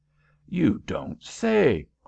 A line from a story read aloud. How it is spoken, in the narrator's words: cried Headingly